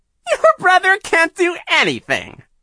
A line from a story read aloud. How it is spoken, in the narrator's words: Shirley said, giggling in a most annoying way